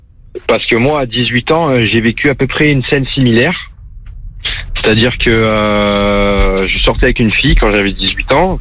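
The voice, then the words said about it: Marseille French accent. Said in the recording (French): “de Marseille ... c'est le même accent”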